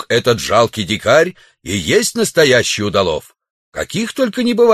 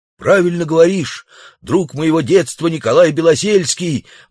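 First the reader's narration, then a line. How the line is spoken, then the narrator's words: Savage's exclamation. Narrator (Russian): воскликнул дикарь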